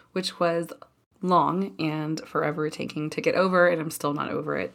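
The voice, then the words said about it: Sick-sounding voice. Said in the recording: “as you can tell from my voice, I am recovering from bronchitis”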